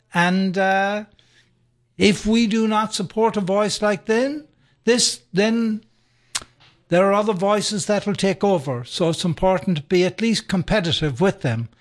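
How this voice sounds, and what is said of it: Speaks with a brogue accent. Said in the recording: “your brogue ... It has a joyful sound.”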